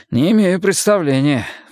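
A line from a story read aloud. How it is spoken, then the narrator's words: Sighing. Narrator (Russian): вздохнул Майкл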